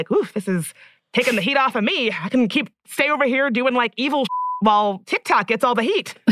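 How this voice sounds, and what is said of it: Imitates another person's voice. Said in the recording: “my Mark Zuckerberg impression... It was very good... It was perfect.”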